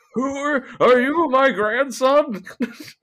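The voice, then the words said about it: Old man character voice. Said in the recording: “give him an old man voice”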